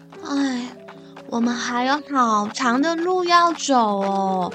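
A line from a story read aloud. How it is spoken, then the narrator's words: Sighing. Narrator (Chinese): 男孩叹了一口气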